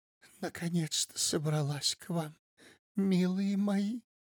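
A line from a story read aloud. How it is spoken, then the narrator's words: Sad whisper. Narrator (Russian): Марыськина печально прошептала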